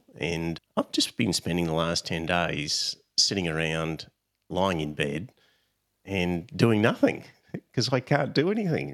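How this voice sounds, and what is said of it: Congested, stuffy-nosed voice. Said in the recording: “clogged up head, even my nose now. You can probably hear my voice is not normal”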